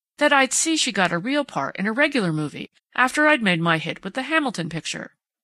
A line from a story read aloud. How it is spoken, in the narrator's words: Sprague took him up eagerly